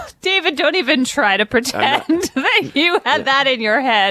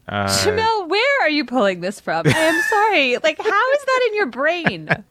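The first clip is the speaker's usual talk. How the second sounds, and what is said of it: High-pitched, rising voice in shock. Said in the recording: “my voice is rising in shock”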